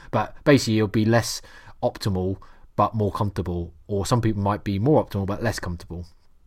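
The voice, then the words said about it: Norfolk English accent. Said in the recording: “that's really Norfolk, that's my accent coming from there”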